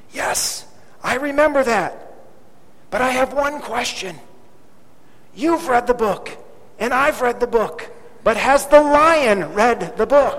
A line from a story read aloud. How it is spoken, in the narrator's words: The second explorer whispered